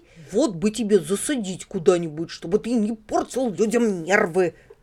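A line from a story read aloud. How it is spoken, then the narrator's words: Grumbling. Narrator (Russian): проворчал дядя Федя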